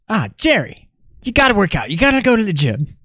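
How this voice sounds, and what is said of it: Imitates a TV character's voice. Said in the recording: “That was my band impression ... I was in character”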